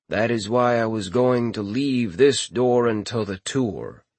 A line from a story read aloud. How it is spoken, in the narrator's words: Futin said